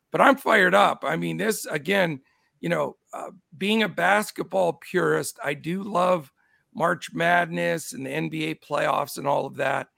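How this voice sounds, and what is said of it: Hoarse voice. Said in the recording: “I apologize, my voice... it's still attacking my voice... I'm hoarse”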